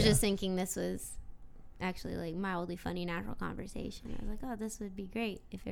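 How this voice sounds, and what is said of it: Usual voice. Nothing is said of it.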